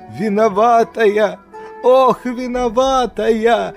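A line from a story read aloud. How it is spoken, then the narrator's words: Whimpering. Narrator (Russian): захныкала акуля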